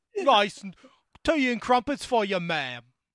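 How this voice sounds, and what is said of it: Bad British accent, sounds Australian. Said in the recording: “I thought you were going to try a British accent ... that's very Australian ... You sound like a crocodile hunter ... Australian. Yes. You sound like you should be wrestling a crocodile ... Terrible”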